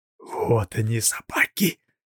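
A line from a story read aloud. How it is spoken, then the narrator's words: Whisper. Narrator (Russian): прошептал Андрей Ерин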